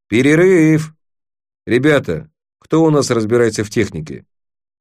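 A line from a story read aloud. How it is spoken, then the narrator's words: Bored voice. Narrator (Russian): Криз скучным голосом сказал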